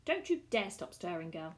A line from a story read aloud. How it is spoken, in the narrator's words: snapped Marina